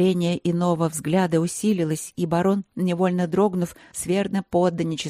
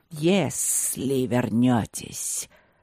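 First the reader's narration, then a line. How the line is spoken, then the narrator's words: Snake hissing ominously, not angry. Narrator (Russian): прошипел змей с нехорошим намеком, но без злости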